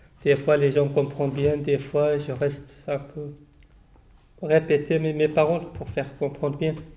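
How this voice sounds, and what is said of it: Non-native French accent. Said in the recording (French): “Même moi, je parle, mais j'ai toujours mon accent.”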